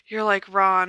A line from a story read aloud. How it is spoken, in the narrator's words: she sighed